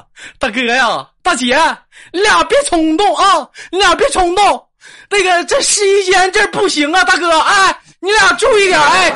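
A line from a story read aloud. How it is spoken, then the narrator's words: Loud shouting. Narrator (Chinese): 导购小姐高声的呐喊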